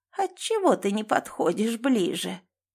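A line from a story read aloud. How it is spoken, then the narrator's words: Creaky dead woman's voice. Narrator (Russian): проскрипела покойница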